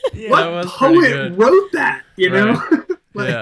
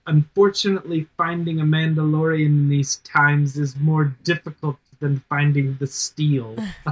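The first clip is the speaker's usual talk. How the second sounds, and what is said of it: Impression of a show character's line. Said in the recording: “That was a great impression,”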